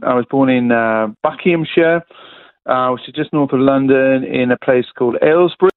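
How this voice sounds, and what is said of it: British English accent. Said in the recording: “I was born in the UK, as you could probably pick up from the accent.”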